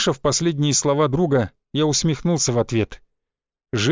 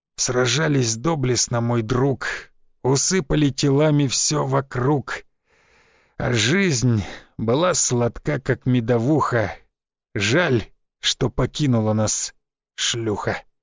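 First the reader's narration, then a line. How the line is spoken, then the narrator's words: Dying hoarse rasp. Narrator (Russian): Истекая кровью, он напоследок прохрипел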